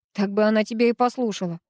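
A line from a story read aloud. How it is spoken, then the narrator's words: Amused snort. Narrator (Russian): хмыкнула Ирка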